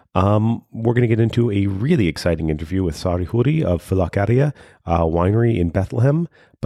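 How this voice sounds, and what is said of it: Sick-sounding voice. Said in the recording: “Excuse my voice. ... I'm a little bit sick right now.”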